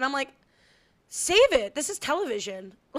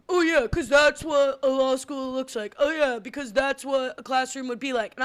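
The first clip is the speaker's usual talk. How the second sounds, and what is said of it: Impression of another person's voice. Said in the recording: “is that your Billy Lasher impression?”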